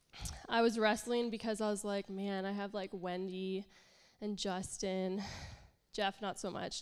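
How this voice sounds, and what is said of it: Congested, nasal voice. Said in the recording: “I'm really congested, so sorry, I sound really nasally.”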